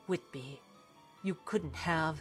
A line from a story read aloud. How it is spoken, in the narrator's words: he muttered to himself